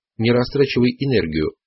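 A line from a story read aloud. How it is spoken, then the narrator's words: Stern command. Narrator (Russian): велел Дон Хуан строгим голосом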